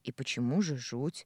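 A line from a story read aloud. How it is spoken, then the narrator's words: Grumbling. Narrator (Russian): проворчала я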